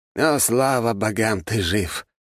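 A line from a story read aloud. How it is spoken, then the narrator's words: Relieved exhale. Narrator (Russian): с облегчением выдохнул он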